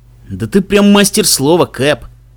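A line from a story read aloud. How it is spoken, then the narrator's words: Grumbling. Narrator (Russian): проворчал Мбицы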